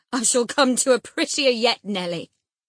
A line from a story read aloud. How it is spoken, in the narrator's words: laughed the misguided man, recovering his hardness